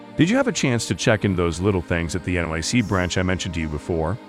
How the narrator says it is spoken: Brooke chuckled

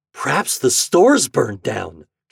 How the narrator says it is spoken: gasped Homer

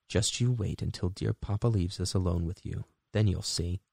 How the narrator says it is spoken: one of the sisters would whisper in Vasilisa's ear

